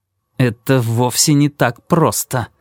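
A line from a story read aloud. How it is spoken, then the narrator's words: Through gritted teeth. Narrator (Russian): ответил Кармоди сквозь зубы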